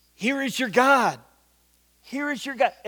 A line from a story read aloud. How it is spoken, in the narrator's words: shouting out